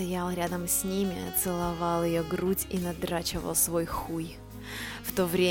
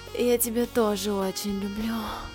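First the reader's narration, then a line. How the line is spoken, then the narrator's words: Moaning. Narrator (Russian): простонала Марина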